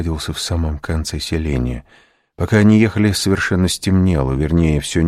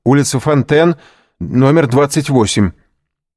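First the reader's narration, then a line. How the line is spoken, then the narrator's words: Shouting. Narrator (Russian): крикнул кучеру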